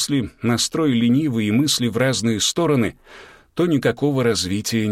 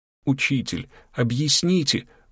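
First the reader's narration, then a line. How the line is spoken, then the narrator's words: Pleading. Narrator (Russian): взмолилась Ульяна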